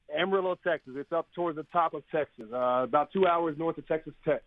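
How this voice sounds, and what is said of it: Texas accent. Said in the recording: “Amarillo. And you started – you're obviously from there. I can hear in your accent.”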